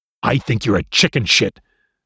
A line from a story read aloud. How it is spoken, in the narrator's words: the young man snarled